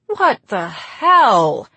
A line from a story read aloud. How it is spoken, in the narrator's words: she wailed